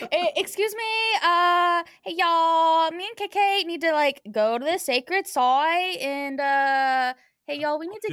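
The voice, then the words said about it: Shifting accent, preppy Southern to Australian. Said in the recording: “accent keeps changing ... It went from real preppy southern to a real nice transition to Australian.”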